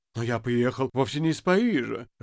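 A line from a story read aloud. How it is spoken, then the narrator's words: Confused. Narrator (Russian): растерянно сказал Воробьянинов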